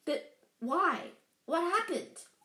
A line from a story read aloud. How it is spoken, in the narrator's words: Harry asked urgently